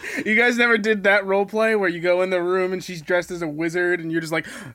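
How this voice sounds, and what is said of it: Usual voice. Nothing is said of it.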